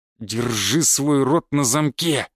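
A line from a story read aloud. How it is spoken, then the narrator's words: Growled. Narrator (Russian): прорычал здоровяк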